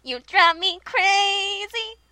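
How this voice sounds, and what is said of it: Sung imitation of a pop singer. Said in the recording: “I'm such a good singer. ... Such a good Britney impression.”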